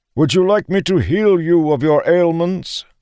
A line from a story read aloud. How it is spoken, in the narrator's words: the bringer called out